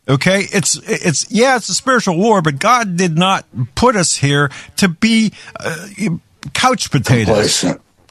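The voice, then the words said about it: Yelling, upset. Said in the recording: “sorry for yelling”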